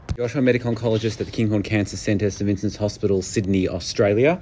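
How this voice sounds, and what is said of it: Australian accent. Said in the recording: “By the accent, I think that's probably right.”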